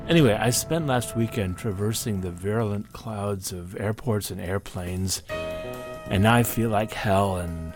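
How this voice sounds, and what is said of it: Sick-sounding, altered voice. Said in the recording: “does my voice sound weird? It probably does”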